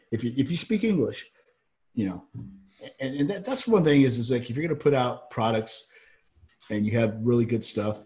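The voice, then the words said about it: Southern US accent. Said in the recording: “I got a Southern accent because I grew up in Georgia ... So I got the Southern accent that keeps coming out ... both of us have a cracker voice”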